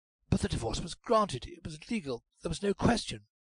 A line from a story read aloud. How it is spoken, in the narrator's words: said Dare eagerly